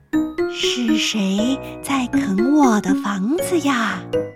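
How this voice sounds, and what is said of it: Kind, gentle character voice. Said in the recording (Chinese): “从背后传来和蔼的声音说。”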